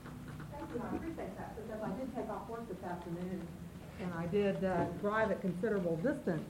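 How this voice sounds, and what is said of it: Southern US accent. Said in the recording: “That's an interesting Forest Grove accent ... I will also explain my accent ... I am from Texas originally, and I did spend 7 years in Alabama ... it hasn't gone away”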